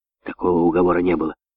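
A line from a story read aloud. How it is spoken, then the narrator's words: Irritated, hateful whisper. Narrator (Russian): раздраженно зашептал Микки Маус, с ненавистью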